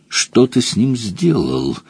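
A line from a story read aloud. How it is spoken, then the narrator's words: Through gritted teeth. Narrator (Russian): сквозь зубы проговорила Домормур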